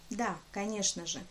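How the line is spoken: Soft, smiling. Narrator (Russian): мягко улыбнулся сэр Анрасер

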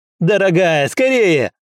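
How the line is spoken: Urgent shout. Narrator (Russian): вновь закричал Мэйд, видя, что его жена замешкалась

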